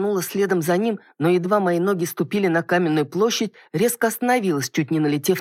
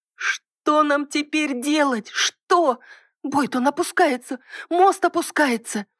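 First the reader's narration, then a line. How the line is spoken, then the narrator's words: Frightened cry. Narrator (Russian): Испуганно вскрикнула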